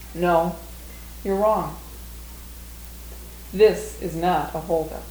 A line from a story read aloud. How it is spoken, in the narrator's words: calmly stated in a matter-of-fact voice